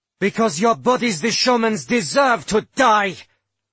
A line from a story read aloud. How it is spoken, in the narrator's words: Lavina spat out